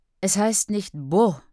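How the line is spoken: Snapping. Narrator (German): schnauzt an

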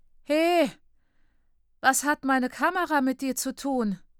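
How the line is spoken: Sad call. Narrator (German): ruft betrübt

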